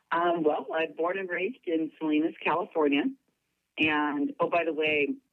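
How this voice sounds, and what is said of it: Husky voice from a cold. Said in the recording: “I've got a little bit of a cold, so if I sound extra sexy right now ... the cold ... that's not my normal voice necessarily”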